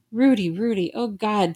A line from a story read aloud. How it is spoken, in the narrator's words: Señor Castillo cried